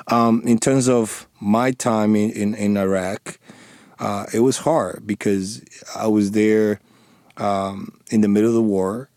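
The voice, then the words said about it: Thick non-native accent. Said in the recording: “I do have a thick accent”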